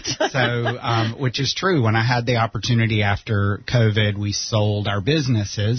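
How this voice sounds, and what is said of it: South Carolina accent. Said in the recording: “I'm not originally from here, if you can't tell by the accent. I'm from South Carolina”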